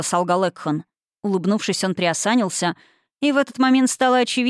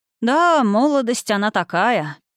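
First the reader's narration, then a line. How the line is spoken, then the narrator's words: Healer's nostalgic sigh. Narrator (Russian): лекарь ностальгически вздохнул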